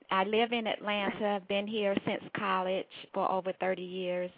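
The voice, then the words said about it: North Carolina Southern accent. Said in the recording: “Durham, North Carolina is home. That's the accent.”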